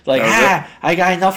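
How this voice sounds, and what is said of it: Imitates another person's voice. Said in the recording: “That's my McFarlane accent.”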